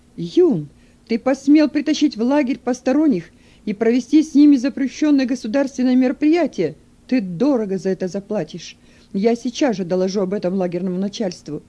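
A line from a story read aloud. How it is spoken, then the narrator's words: Angry shout. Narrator (Russian): злобно закричал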